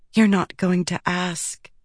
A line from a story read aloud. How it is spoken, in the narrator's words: Shallan whispered